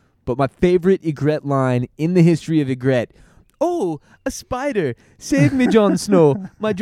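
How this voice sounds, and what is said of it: Usual voice. Nothing is said of it.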